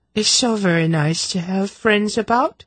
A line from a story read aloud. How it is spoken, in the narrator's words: the Archduchess said dreamily